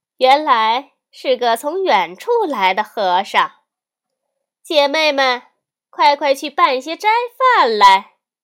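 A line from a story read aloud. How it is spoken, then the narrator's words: Laughing woman. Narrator (Chinese): 那女子便笑说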